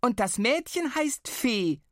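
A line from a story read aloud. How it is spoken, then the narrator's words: Very loud bellow. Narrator (German): brüllte Flo gleich so laut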